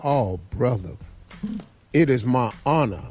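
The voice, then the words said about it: Put-on British accent. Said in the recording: “With his British accent.”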